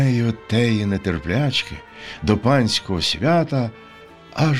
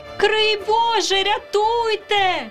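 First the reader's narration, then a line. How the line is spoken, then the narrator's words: Young women crying out. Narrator (Ukrainian): крикнули панночки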